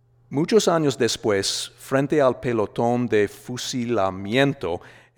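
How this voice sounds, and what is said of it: American Midwestern accent speaking Spanish. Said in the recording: “I speak the language relatively fluently, but I'm from Indiana. My inner Hoosier often hijacks my own accent ... my R's are too rounded”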